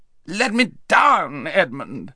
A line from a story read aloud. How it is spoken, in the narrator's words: howled Rabadash